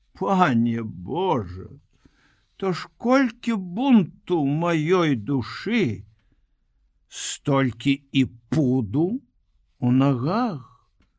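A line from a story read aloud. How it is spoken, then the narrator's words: Defensive pleading. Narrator (Belarusian): Абараняючыся ад праведных боскіх папрокаў, мужычок узмаліўся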